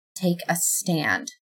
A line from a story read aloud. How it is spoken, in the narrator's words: I whispered